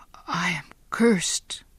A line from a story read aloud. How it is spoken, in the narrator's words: Giovanni whispered to himself